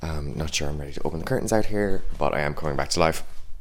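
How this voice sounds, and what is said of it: Deep early-morning voice. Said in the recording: “my little deep voice”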